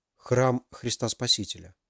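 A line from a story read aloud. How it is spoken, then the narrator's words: Whisper. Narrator (Russian): прошептал Максим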